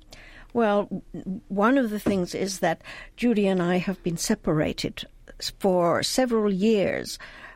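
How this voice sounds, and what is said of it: British accent. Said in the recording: “you're German by birth. You have a British accent because you were raised in England”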